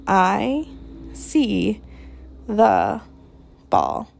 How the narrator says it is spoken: the old man studied it for a while and said slowly, gingerly

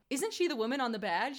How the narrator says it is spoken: Yang asks

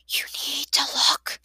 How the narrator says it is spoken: Chukma whispered

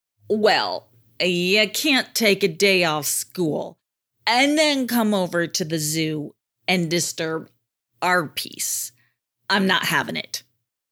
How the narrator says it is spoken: growled an angry orangutan

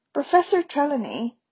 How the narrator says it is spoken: began Parvati in a hurt and indignant voice

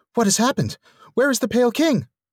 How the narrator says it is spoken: asked wildly

